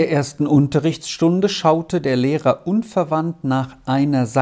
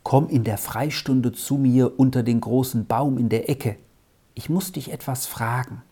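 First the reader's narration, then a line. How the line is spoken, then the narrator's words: Quiet reply. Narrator (German): Ebenso leise gab Arthur zurück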